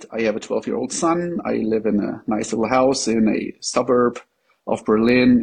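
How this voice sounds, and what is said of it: German accent in English. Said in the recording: “as you can tell by my accent. I am not a native English speaker. I'm from Germany”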